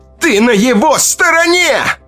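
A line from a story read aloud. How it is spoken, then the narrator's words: Shouted. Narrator (Russian): крикнула Ита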